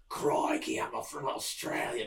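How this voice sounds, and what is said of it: Mock Australian accent. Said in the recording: “They gave him an Australian accent.”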